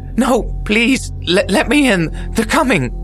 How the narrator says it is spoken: The woman shrieked almost instantly

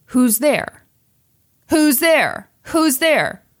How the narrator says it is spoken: she yelled

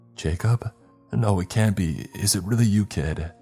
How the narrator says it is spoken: he asked, his voice cracking slightly

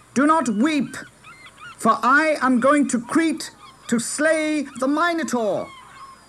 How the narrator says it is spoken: he shouted

